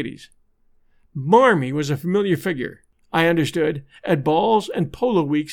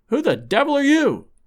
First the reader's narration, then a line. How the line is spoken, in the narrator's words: he gasped